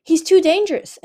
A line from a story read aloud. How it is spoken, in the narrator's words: Indigo cried